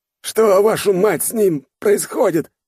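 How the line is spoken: Yelling old man. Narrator (Russian): орал старый майор

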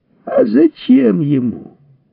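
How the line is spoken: Joyful shout. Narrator (Russian): радостно вскричал Изя

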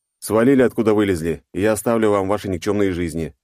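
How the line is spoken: Flat indifferent statement. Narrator (Russian): безразличным тоном поставил их перед фактом

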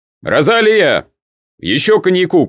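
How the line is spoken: Shouted. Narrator (Russian): крикнул Нунан

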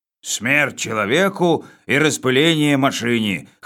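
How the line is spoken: Hoarse colonel. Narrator (Russian): хрипло сказал полковник

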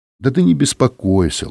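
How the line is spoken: Gentle, affectionate. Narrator (Russian): ласково сказал Жилин

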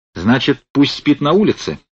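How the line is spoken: Angry question. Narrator (Russian): злобно спросил Корнеев

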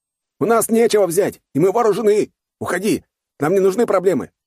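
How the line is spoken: Shouted, young man. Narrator (Russian): крикнул другой парень

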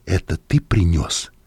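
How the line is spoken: Whispered question. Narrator (Russian): спросил я Леля шепотом

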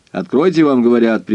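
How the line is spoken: Sharp shout. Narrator (Russian): прикрикнул я

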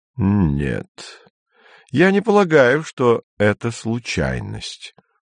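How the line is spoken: Slow. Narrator (Russian): медленно сказал Гейгер

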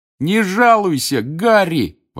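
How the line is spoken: Delighted shout. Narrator (Russian): восторженно крикнул Рон

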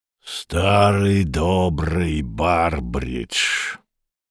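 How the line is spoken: Hoarse male voice. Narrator (Russian): проговорил хрипатый

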